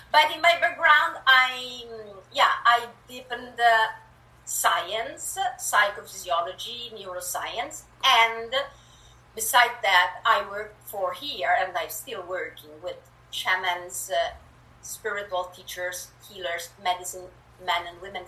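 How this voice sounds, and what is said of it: Italian-accented English. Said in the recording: “I was born in Italy and moved to Canada a few years, years ago, so um, yeah, you will hear a bit of an accent.”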